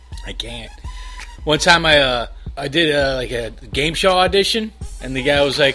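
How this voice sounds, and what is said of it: Chicago accent. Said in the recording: “Southside Chicago. I guess you can hear that accent, right? ... It comes out. ... Oh, you have an accent. ... I'm from Chicago.”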